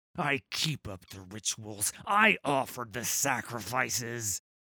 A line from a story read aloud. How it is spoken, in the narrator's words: Gangplank snarled